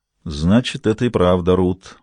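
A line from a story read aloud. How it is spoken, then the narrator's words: Mumbling. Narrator (Russian): пробормотал Габри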